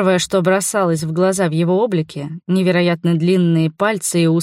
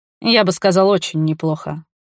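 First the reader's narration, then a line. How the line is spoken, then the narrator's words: Amused snort. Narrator (Russian): хмыкнул Равка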